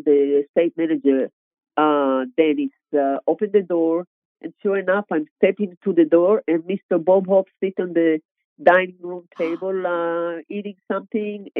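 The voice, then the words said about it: Israeli-accented English. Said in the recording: “obviously I have a different accent ... I'm from Israel.”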